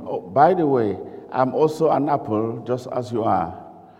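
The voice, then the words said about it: Cameroonian-accented English. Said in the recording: “my way of speaking English might not be the same as you speak English, and you might not understand my accent ... your African ears and Cameroonian ears”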